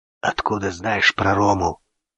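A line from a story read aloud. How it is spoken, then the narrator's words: Hoarse question. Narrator (Russian): спросил он хрипло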